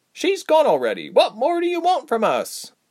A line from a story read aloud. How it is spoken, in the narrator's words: Berg piped up